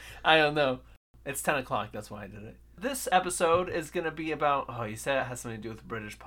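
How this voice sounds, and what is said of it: Usual voice. Nothing is said of it.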